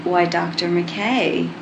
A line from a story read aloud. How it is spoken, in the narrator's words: John purrs, when he finally breaks away to catch his breath